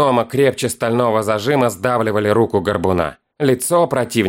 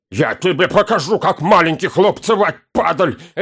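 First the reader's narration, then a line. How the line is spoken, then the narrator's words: Barking dwarf. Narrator (Russian): рявкнул гном в лицо горбуну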